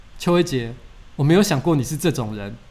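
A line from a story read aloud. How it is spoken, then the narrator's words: Flat, calm. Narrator (Chinese): 他就淡淡的说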